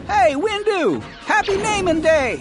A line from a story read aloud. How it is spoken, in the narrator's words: A man shouted